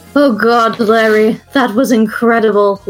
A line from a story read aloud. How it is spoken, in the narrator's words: Ludwig groaned